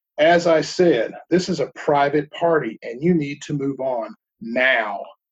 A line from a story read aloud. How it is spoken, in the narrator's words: The man, not seeing the humor in this, said in a sterner voice